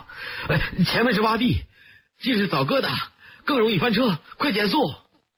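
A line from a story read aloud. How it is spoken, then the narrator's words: Loud shout. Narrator (Chinese): 陈震 他大叫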